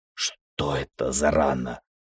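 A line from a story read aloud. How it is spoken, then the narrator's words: Hoarse question. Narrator (Russian): хрипло спросил я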